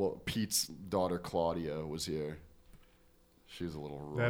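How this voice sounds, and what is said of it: Usual voice. Nothing is said of it.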